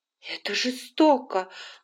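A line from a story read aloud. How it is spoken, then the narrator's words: Exclaiming. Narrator (Russian): воскликнула Скарлетт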